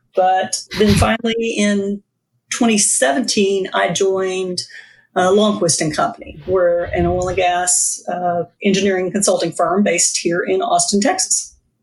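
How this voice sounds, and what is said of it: Distinctive noticeable accent. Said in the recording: “you have the best accent of anybody who's been on the show to this point ... Surprised me a little bit as you got going”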